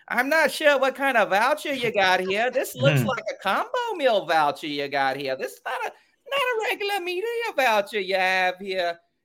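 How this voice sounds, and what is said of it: Thick regional accent imitation. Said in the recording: “the accents were so thick”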